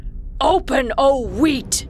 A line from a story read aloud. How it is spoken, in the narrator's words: Irritated, Kasim yelled